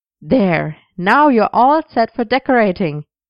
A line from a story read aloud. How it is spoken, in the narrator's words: he said cheerfully